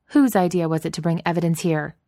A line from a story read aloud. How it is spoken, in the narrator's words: she snapped in an accent that was clipped and strongly French